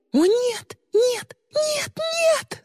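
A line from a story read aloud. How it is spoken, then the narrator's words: Screamed. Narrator (Russian): закричала Ли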